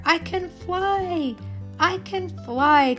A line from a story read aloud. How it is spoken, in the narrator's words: cried the butterfly